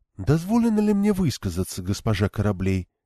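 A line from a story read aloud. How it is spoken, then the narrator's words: Barely audible question. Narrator (Russian): чуть слышно спросила Амилия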